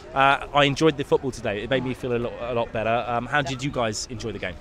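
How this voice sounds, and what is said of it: Slightly congested, sick-sounding voice. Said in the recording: “I've got a bit of a cold”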